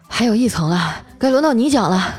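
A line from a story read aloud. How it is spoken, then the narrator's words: Breathless. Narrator (Chinese): 我气喘吁吁的对表弟说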